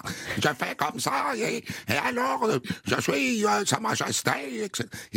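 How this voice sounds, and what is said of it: Imitation of Prince Sihanouk's accent. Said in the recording (French): “il avait un accent extraordinaire. Il parlait comme ça ... tous mes accents asiatiques sont des imitations du prince Sihanouk du Cambodge”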